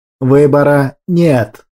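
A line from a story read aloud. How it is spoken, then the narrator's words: Menacing objection. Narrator (Russian): грозно возразил Ариман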